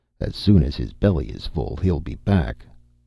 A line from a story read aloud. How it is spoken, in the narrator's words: muttered Conan